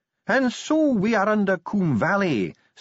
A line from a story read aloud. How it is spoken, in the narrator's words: sneered Ardent